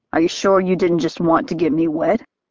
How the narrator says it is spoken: I laughed

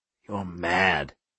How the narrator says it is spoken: Cap whispered

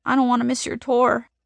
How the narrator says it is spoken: she sobs, sounding like she really means it

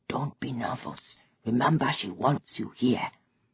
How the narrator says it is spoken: Obinze whispered

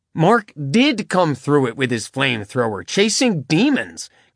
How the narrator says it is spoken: Caleb said indignantly

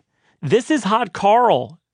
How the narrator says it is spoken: the assistant followed up, leaning in and yelling to reach Christina's ears

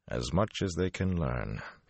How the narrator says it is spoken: he said flatly

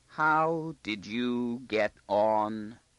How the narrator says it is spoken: he asked slowly, as though gripping each word with his teeth very carefully to prevent it from trembling

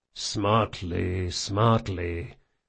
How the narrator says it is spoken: the big man muttered to himself

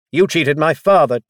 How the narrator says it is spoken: Dazel shouted

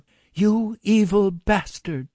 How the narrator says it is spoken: she shouted into the receiver

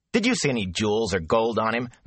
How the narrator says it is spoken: Matt scoffed

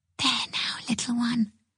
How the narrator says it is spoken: she whispered

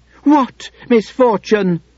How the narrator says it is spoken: Beauty screamed

